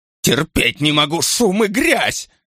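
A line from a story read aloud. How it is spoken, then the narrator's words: Shout. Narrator (Russian): крикнула она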